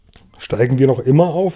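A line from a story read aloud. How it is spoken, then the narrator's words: Plain. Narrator (German): fragte James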